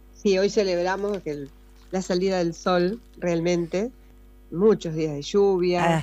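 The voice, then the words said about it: Polished radio announcer voice. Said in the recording (Spanish): “Tiene voz de locutora”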